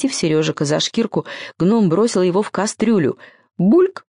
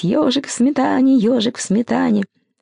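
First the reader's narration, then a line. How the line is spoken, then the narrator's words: Crazed purring hum. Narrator (Russian): Безумно он продолжал мурлыкать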